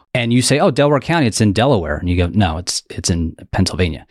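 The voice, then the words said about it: Regional Delaware County accent. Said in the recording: “we're oddly known for the way we pronounce words ... You're holding on to the regional accent.”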